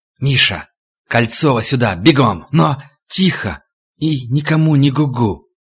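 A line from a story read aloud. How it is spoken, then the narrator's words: Hissing. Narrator (Russian): Хищник прошипел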